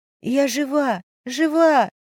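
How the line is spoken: Hoarse wheeze. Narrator (Russian): сипела я

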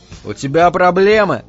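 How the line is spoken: Rude question. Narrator (Russian): грубо поинтересовался я

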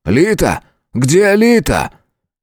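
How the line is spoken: Roaring. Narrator (Russian): взревел Патрик

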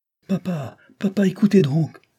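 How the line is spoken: Child's sudden cry. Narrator (French): s'écria tout à coup l'enfant

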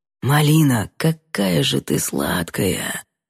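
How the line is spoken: Muffled whisper. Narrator (Russian): прошептал Димка, зарывшись лицом в шею

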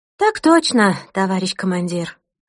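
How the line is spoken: Crisp, over the phone. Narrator (Russian): отсалютовала в трубку Ирина

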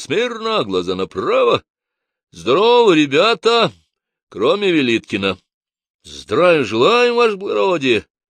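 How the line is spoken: Cheerful crisp chorus. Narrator (Russian): Весело отчеканил рота

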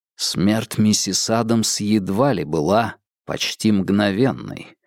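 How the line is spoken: Quiet but firm. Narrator (Russian): тихо, но твердо проговорил Холмс

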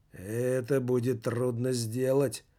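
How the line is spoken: Gloomy octopus reply. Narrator (Russian): мрачно откликнулся осьминог

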